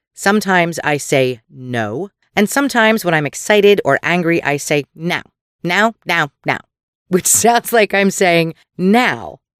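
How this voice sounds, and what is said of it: Philadelphia accent on O vowels. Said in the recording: “our Pennsylvania accents. Mine, which can be very Philly when I don't pay attention to my O's”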